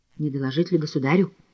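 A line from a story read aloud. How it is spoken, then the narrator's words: Whispered. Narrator (Russian): шепнул Толстой Шафирову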